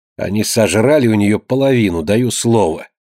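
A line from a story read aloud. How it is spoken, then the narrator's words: Angry grumbling. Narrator (Russian): сердито ворчала она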